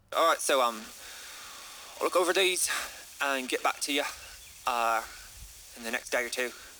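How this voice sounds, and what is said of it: Put-on Scottish accent slipping Irish. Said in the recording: “work on my accent in the meantime, so it won't stop drifting up to the Irish... I used to be able to do the Scottish one”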